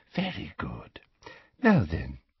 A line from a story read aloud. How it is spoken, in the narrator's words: she whispered